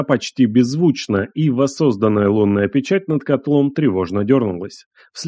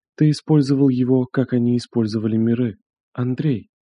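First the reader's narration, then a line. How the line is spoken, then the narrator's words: Quiet, trembling voice. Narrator (Russian): Тихо проговорила она, и впервые ее голос дрогнул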